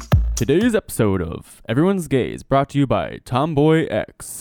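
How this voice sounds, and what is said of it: Straight announcer-style radio voice. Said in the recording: “I got my radio voice, my straight radio voice, and now I'm done.”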